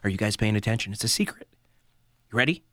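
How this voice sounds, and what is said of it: Whispering into the microphone. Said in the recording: “I'm whispering. I'm whispering like Joe Biden in the microphone.”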